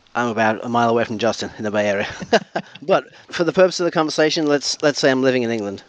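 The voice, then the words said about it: Non-local, possibly English accent. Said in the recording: “Your accent is the reason why I was hoping that you would say somewhere far”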